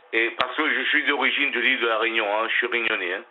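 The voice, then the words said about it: Réunionnais French accent. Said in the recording (French): “j'entendais votre accent ... Il y a un accent de réunionnais ? ... Oui, hein, je vous assure. ... je connais des réunionnais qui ont le même accent que vous.”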